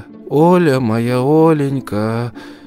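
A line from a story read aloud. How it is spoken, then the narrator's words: Old woman's plaintive lament. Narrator (Russian): Старушка жалобно причитала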